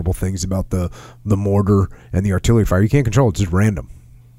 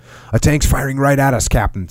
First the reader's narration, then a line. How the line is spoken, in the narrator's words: Sparky said excitedly